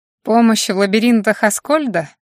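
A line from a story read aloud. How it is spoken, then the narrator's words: Angry laugh. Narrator (Russian): зло рассмеялась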